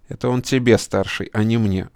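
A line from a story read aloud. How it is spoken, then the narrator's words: Snapping retort. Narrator (Russian): огрызнулся карась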